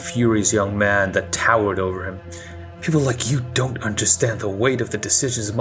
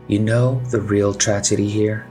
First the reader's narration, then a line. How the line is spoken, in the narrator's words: She asked in a frighteningly calm tone of voice